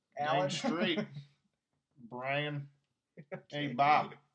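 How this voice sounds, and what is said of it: Exaggerated put-on accent. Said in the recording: “Just saying names in a bad accent”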